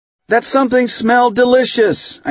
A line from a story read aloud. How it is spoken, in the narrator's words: I screamed